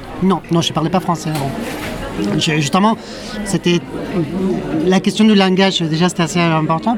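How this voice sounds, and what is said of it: Argentine accent in French. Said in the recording (French): “Tu parles très bien français avec ton très joli accent argentin.”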